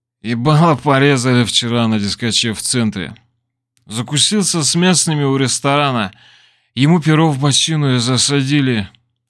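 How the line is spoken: Hoarse. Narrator (Russian): хрипло произнес Мафон

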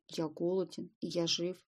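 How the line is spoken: Muttering wretch. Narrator (Russian): пробормотал несчастный

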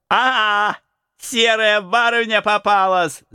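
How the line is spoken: Shout. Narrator (Russian): закричал волчок

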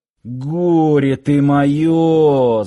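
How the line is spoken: Security chief's groan. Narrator (Russian): застонал начальник охраны

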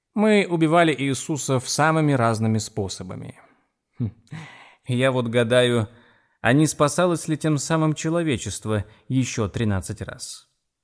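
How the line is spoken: Laughing. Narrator (Russian): Эйвери рассмеялся

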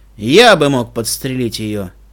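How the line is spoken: Grumbled. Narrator (Russian): проворчал Стилхуфс

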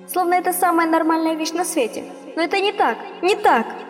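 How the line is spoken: Mother shouting. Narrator (Russian): кричала мама

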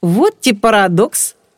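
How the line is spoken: Laughing. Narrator (Russian): рассмеялся Женька

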